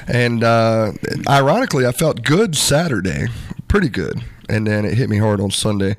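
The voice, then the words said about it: Weakened, ill-sounding voice. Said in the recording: “my voice is not all there still. I've got a cough drop in... my voice doesn't totally sound like it”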